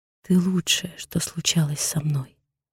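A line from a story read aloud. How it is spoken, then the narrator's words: Barely audible confessional whisper. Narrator (Russian): шепчу еле слышно, не сдержавшись от признания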